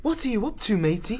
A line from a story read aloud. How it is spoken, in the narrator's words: He asked, keeping his voice low